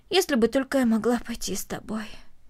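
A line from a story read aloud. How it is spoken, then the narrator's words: Heavy sigh. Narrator (Russian): тяжело вздохнула Корнелли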